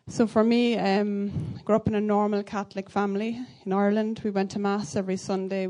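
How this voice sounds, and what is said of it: Irish accent. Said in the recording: “I'm from County Laois in Ireland. You can probably tell by my accent.”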